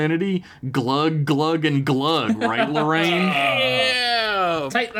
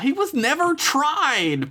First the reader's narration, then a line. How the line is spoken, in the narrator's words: Peggy yelled out